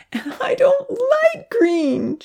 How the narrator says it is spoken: she wailed

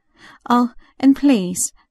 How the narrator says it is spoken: Verity begged

